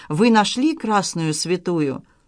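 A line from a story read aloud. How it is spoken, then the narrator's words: Weary question. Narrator (Russian): А капитан Морган устало спрашивал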